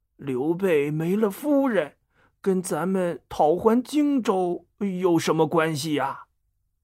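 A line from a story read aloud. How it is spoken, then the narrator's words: Mumbling. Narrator (Chinese): 他嘟囔着说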